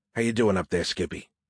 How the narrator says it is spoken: whispered with my head under a pillow

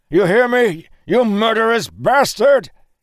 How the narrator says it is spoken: He screamed madly

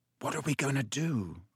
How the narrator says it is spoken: said Ron quietly in Harry's ear

